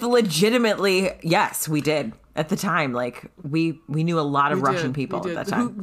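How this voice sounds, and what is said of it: Usual voice. Nothing is said of it.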